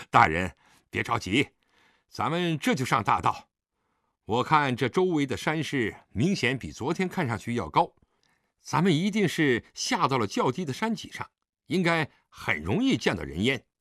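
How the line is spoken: Laughing. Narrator (Chinese): 李元芳也笑了

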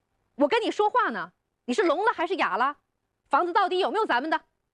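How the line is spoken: Suspicious shout. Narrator (Chinese): 吴梅看李军越看越觉得不对，喊道

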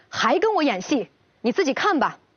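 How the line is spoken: Angry. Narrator (Chinese): 张磊怒气冲冲地 说道

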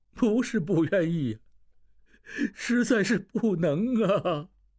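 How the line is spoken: Crying. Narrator (Chinese): 摆渡人哭起来

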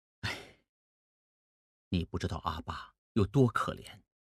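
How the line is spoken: Long sigh. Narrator (Chinese): 孟梅长叹一口气说

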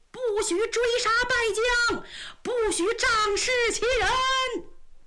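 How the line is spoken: Crowd shouting. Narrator (Chinese): 大家这一喊

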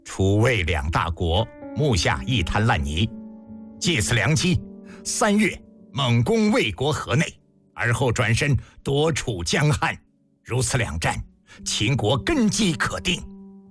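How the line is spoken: Unsmiling, serious. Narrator (Chinese): 脸庞没有一丝笑容

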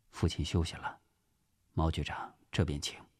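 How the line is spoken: Soft voice. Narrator (Chinese): 轻轻地关上门，轻声对毛仁凤说

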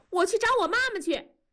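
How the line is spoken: Crying child shouting. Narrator (Chinese): 燕妮在哭，一边哭还喊

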